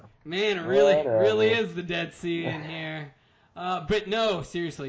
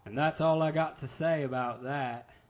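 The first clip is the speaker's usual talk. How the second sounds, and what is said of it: Bad Forrest Gump impression. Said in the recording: “A bad Forrest Gump impression? I tried.”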